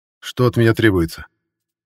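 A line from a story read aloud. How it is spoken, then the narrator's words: Said in firm voice. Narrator (Russian): Твердым голосом сказал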